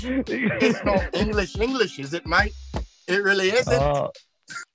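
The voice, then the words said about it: Put-on Australian accent, English-sounding. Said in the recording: “you've sort of got like an English, like, Australian crossover there... The mate was right on point... horrible”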